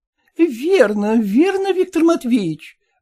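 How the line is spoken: Exclaiming. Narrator (Russian): воскликнула Манефа Мартыновна

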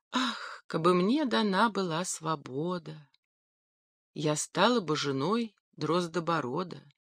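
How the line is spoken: Sighing whisper. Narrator (Russian): Королевна вздохнула и прошептала

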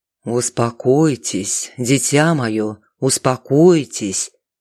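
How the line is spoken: Monotone soothing priest. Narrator (Russian): Монотонным голосом увещевал дрожащую девушку святой отец

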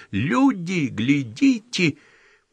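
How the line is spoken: Drunken yelling through megaphone. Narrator (Russian): просунув в отдушину мегафон, пьяно орала

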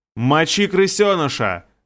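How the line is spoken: Shouting. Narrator (Russian): закричал Растяпа

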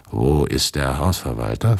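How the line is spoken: Altered voice, asking. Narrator (German): fragte ich mit anderer Stimme

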